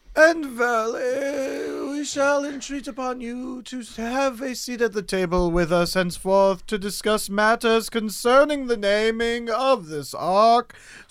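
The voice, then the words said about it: Put-on mock British accent. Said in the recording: “In a British accent?”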